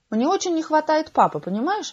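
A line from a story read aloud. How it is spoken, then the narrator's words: Pensive mother. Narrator (Russian): задумчиво сказала мама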